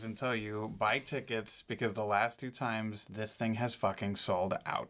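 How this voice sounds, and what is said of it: Mock stern dad voice. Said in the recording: “I'm going to use my adult dad voice”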